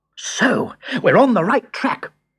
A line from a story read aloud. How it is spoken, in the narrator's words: cried Hugo